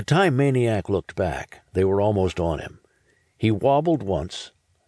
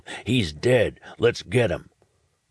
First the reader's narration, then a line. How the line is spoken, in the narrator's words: He snarled